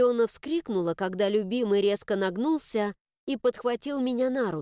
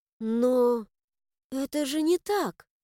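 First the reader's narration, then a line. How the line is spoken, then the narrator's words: Bewildered whisper. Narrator (Russian): растерянно прошептала я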